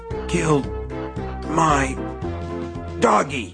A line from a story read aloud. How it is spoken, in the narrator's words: Nettie gasped, spitting a fine mist of blood